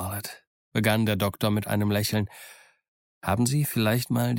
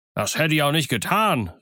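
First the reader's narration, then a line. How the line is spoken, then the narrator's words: Call out. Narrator (German): rief der Squire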